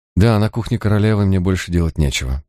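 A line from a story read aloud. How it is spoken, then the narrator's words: Sad young woman. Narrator (Russian): печально проронила девушка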